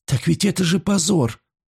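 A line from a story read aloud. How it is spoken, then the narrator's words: Sobbing reply. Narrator (Russian): отвечала Мина, всхлипывая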